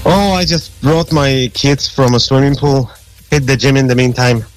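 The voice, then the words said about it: Polish accent. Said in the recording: “Where's that accent from? ... That's an accent that I can't get rid of. It's from Poland. ... you haven't lost your accent”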